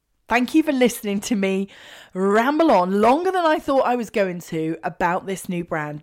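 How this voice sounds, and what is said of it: Excited, energetic voice. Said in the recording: “you can probably hear in my voice, I am so freaking excited”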